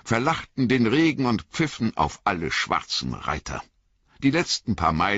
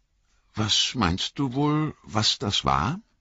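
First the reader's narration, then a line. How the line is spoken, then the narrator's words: Forced casual, shaky voice. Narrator (German): fragte Pippin schließlich, um einen beiläufigen Ton bemüht, aber mit leicht flatternder Stimme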